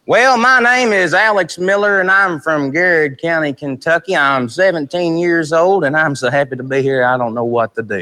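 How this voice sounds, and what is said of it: Southern US accent. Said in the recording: “southern accents”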